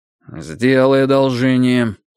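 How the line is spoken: Gloomy. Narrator (Russian): мрачно сказал Андрей Андреевич

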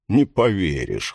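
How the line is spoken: Snorting. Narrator (Russian): хмыкнул Пирс

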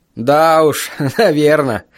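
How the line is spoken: Laughing. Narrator (Russian): рассмеялся я

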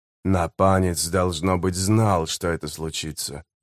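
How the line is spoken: Muttered. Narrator (Russian): пробормотал Леоман

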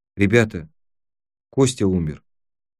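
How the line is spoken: Quiet. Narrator (Russian): тихо сказала

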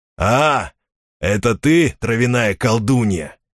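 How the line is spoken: Wry snort. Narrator (Russian): хмыкнул он

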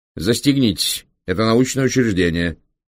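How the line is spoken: Stern command. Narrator (Russian): строго велел профессор

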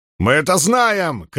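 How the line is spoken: Shouting. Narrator (Russian): крикнул Артур Доусон

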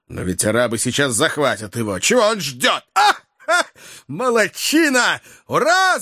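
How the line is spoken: Excited uncontrolled shout. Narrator (Russian): закричал охотник, не в силах более сдерживаться

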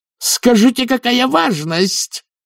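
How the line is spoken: Roared. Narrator (Russian): проревела она

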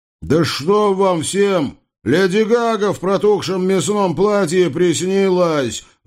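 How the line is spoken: Roaring. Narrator (Russian): взревел Аболенский

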